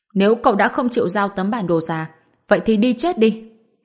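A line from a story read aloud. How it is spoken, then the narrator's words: Sharp shout. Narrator (Vietnamese): Chu Danh quát lên một tiếng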